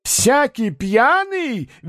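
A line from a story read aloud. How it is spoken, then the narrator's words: Shrill, squealing. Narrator (Russian): визгливо начал Рубашкин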